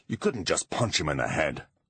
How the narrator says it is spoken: grumbled Butler

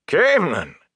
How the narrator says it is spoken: Elias wheezed when he could talk again

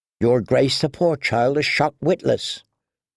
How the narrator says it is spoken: murmured Ser Dontos

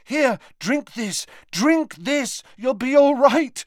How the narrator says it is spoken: said Harry desperately

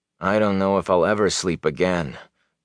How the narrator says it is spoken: Perrin sighed

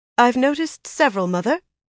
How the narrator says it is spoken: Nisao said stiffly

